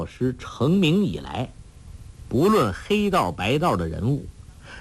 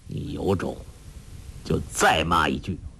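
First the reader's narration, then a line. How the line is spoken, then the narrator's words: Cold. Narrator (Chinese): 冷冷地说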